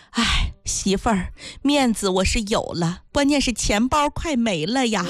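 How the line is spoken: Husband sighing. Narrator (Chinese): 老公叹了一口气说

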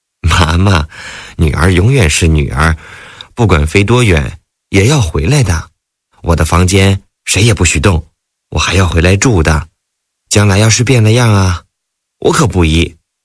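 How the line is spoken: Tender. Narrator (Chinese): 田雨温柔地说

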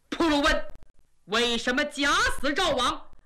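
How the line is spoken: Furious. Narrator (Chinese): 金兀术 大怒

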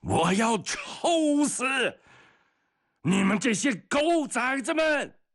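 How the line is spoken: Shouting from far away. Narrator (Chinese): 老远的他就大声喊叫起来

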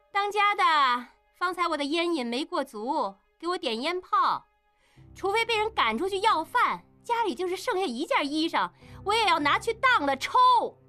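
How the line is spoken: Triumphant loud shout. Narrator (Chinese): 应英女人得胜，故意大声喊

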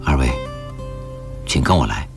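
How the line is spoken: Soft voice. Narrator (Chinese): 修理轻声地说道

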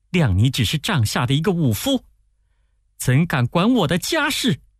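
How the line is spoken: Furious. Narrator (Chinese): 夫人大怒说

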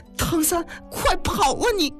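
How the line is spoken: Loud shout. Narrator (Chinese): 巧妻醒悟过来…大喊

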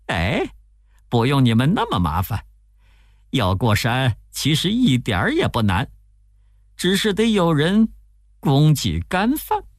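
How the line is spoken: Laughing. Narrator (Chinese): 悟空笑着说

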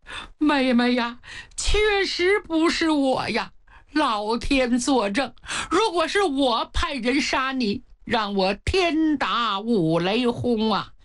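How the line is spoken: Wronged loud sobbing. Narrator (Chinese): 元妃委屈的大哭起来呀

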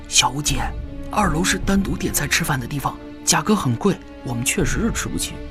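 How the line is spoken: Whispered in ear. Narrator (Chinese): 小五身边一名攻读生低声地在他耳边说

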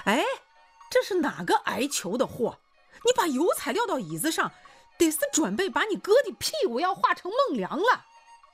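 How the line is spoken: Angry yelling. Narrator (Chinese): 气得刘洪兵直嚷嚷

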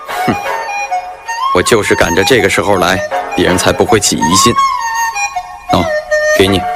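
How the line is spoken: Cold sneer. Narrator (Chinese): 池田冷笑了一下

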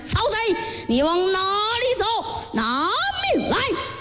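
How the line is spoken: Loud shouting. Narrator (Chinese): 马超马孟起高声喊嚷

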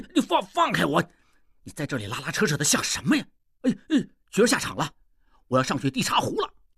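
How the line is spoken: Nearly shouting. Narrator (Chinese): 应鱼差不多喊起来了

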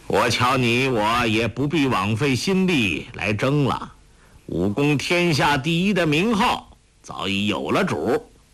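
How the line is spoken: Calm, faint smile. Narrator (Chinese): 欧阳锋淡淡一笑说道

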